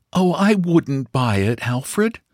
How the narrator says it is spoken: she repeated, and there was a note of pleading earnestness in her voice

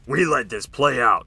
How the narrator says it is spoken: He growled

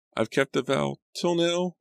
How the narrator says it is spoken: I said, my voice trembling

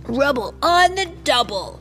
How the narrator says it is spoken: he yelped

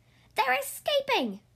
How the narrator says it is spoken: she shouted

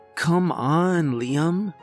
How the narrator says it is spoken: she groaned

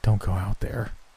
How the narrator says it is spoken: Chris breathed

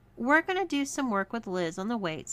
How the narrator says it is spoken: said Bianca

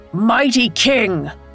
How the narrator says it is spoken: Hercules bellowed

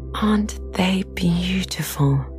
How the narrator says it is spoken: the girl asked

